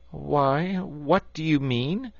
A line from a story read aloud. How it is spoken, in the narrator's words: asked Toad nervously